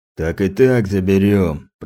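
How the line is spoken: Deep bass voice. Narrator (Russian): пробасил один из быков

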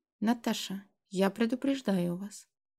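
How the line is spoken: Quiet. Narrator (Russian): тихо сказал Громов

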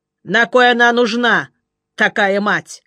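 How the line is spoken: Scornful grunt. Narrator (Russian): хмыкнул Жеглов

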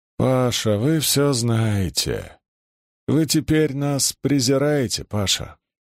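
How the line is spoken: Despairing pitiful moan. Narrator (Russian): в отчаянии, совершенно убитый сознанием своего грехопадения, трогательно простонал

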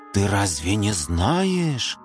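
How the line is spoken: Spooky scary voice. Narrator (Russian): заговорила Симка страшилочным голосом

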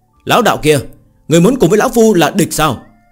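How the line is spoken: Cold loud shout. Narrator (Vietnamese): Kim Quang lão tổ lạnh giọng hét lớn

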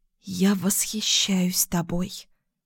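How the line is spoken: Whisper. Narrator (Russian): прошептала

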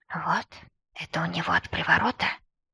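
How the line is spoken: Whispered question. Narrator (Russian): шепотом поинтересовался Мир

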